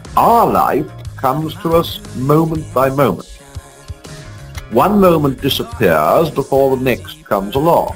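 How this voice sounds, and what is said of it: British accent. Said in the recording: “cop a British accent.”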